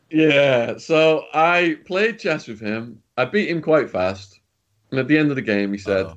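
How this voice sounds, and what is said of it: Usual voice. Nothing is said of it.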